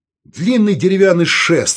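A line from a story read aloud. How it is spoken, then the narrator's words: Irritated. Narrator (Russian): раздраженно сказал Саул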